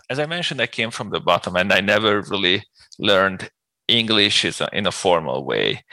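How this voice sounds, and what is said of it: Strong non-native English accent. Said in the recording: “I really love your accent ... you described your accent as terrible. And there are moments when it's hard to understand”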